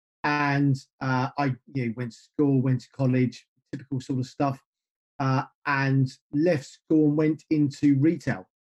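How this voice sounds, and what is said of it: British English accent. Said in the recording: “clearly my accent is not a states-based accent ... I live in the UK. I've lived in the UK most of my life. I grew up just north of London”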